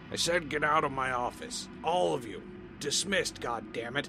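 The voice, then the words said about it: Drunken slurred bellowing shout. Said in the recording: “shouted something, slightly slurred ... he bellowed. His voice was definitely impacted. He'd been drinking.”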